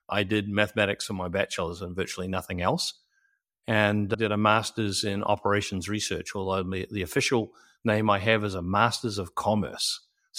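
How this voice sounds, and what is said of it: New Zealand accent. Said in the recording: “that's not a Tennessee accent? ... It's not a Tennessee accent. ... I'm a New Zealander born and raised.”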